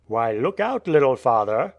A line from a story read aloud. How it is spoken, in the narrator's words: said a Russian traveller in a bantering tone